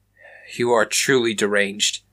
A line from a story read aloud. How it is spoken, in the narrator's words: Raymond exclaimed